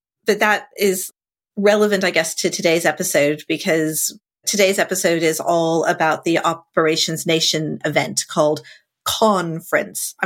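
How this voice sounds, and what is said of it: Sick, tired-sounding voice. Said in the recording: “I have COVID. I've had COVID for like 2.5 weeks now, and I'm really tired... you sound terrible... I'm sounding a lot better”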